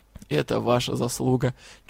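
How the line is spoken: Slightly hoarse. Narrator (Russian): чуть хрипло ответил лорд Тьер

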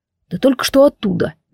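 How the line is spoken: Gentle reminder. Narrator (Russian): мягко напомнил Кайвин

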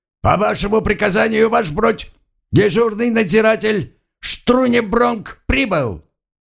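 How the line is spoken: Sleepy guard's bark. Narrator (Russian): заспанный дежурный надзиратель рявкнул

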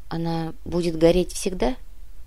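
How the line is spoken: Quiet girl's question. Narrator (Russian): тихо спросила девочка

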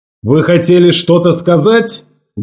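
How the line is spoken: Menacing question. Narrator (Russian): Грозно спросил Ларсон

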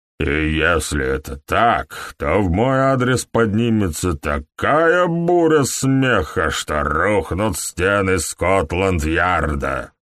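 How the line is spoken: Stifled growl. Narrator (Russian): Он издал сдавленное рычание

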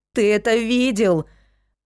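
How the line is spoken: Exclaimed. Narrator (Russian): воскликнула я

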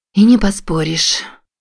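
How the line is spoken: Sighing. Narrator (Russian): вздохнула Марин

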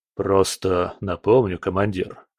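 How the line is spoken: Plain. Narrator (Russian): сказал Волков

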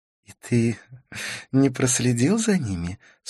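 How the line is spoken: Laughing question. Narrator (Russian): спросила Карлос, смеясь

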